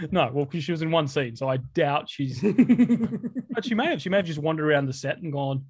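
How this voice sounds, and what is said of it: Usual voice. Nothing is said of it.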